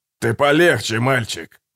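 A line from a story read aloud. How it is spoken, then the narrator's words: Grumbled. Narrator (Russian): проворчал Гегель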